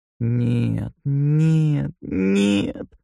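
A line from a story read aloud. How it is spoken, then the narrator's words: Moaning. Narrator (Russian): стонал он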